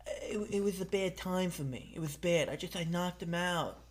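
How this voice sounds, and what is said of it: Imitates another person's voice. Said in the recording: “Mike Tyson.”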